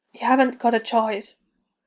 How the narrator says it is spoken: Hicks whispered raggedly, filled with fear and resignation

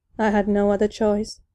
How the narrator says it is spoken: Maul said softly

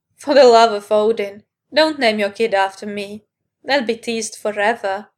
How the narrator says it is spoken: Cloud laughed

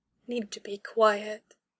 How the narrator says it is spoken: Dahlia replied softly

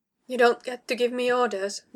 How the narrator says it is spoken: Dahlia told her, punctuating the statement with a mirthless chuckle

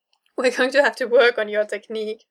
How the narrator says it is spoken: Matt manages to say in between his laughter

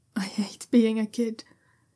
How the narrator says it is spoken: he sighs tiredly into Shunwei's shoulder

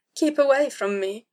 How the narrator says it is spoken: Zed whimpered

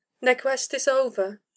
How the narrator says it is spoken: Kaelin pointed out softly

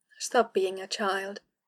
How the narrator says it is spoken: Kaelin said, gently chiding

